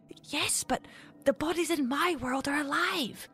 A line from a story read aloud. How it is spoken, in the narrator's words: Mary whispered back to the torch-wielding infant